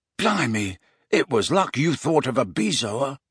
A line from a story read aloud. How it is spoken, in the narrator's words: said George in a low voice